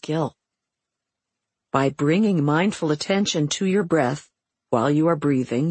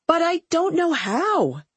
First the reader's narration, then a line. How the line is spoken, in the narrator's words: she would yell in frustration